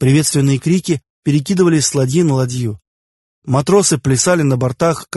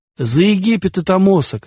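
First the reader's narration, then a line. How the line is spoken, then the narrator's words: Shouting crowd. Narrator (Russian): кричали они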